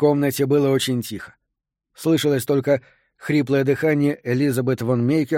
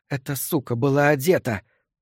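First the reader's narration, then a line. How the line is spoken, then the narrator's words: Hoarse with fury. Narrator (Russian): продолжала она хриплым от бешенства голосом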